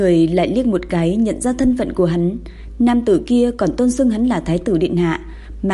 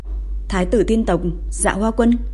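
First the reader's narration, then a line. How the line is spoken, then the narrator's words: Woman muttering. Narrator (Vietnamese): Nữ tử lẩm bẩm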